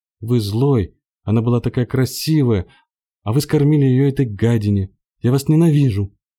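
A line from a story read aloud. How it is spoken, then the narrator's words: Screaming. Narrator (Russian): кричала я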